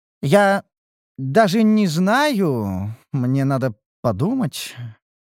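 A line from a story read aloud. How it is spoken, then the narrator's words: Uncertain. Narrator (Russian): заявила Огница неуверенно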